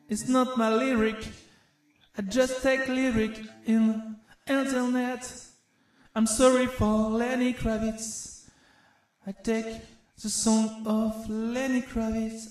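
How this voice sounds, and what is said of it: Strong non-native accent in English. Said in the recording (French): “avec mon accent pourri”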